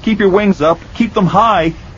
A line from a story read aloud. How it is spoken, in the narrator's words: he shouted